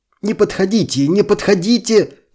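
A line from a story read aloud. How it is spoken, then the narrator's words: Shouting. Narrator (Russian): кричал он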